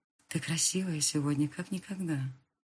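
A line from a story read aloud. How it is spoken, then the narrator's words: Whispered in her ear. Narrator (Russian): шепнул князь ей на ухо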